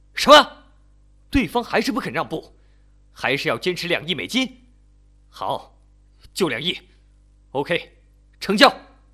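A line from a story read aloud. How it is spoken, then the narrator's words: Roaring. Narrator (Chinese): 刘伟吼道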